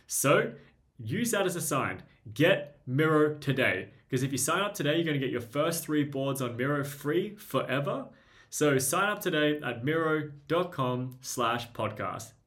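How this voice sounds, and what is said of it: Australian accent, fast speech. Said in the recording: “I talk quickly and with an Australian accent”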